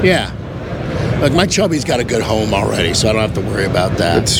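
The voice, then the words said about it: Hoarse, froggy, nearly lost voice. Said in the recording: “I have totally lost my voice. There'll be a point where I'm going to squeal. ... I mean, it's bad. I'm super, super froggy.”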